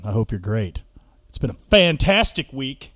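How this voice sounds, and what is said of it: Sarcastic delivery. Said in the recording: “if you can't tell by the sound of my voice ... fantastic. Was sarcasm.”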